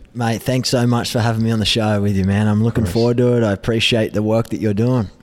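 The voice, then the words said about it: Thick Australian accent. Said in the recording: “You're going to hear the Australian accent ... thick Australian accent”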